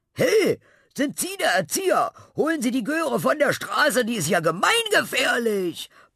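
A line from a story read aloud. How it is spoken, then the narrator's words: Driver bellowing through window. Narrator (German): brüllte ein Autofahrer durchs Fenster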